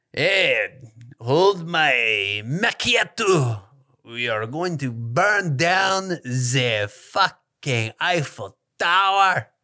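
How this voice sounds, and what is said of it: Bad fake French accent. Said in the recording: “That's a bad French accent.”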